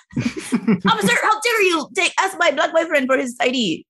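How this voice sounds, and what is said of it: Indignant imitation of a white woman. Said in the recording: “this is my impression of a white woman ... Very accurate ... I'm indignant and angry”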